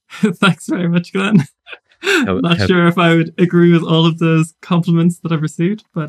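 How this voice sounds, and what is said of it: Lyrical Irish accent. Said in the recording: “lyrical Irish accent”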